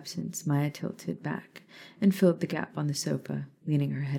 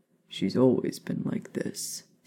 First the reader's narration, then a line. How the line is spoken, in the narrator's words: Sirius mumbled